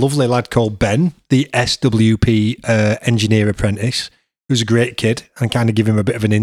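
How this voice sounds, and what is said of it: Usual voice. Nothing is said of it.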